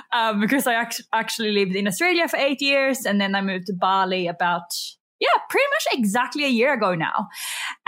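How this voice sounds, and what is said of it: Slight Swedish accent. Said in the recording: “I am actually from Sweden. So if I have a bit of an accent that comes out... you'd probably be like, oh my God, yes, I can hear it now. Before I thought she was Australian.”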